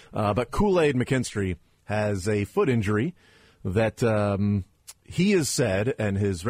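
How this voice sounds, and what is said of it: Usual voice. Nothing is said of it.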